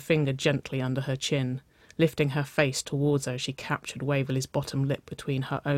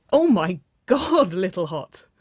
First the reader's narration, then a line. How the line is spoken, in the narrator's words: Wynona laughed, her brash voice ringing above the pounding pulse in Waverley's ears